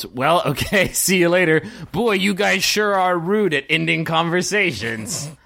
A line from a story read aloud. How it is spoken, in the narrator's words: Captain Bane yells